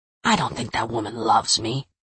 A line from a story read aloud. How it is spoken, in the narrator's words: Joe whispered back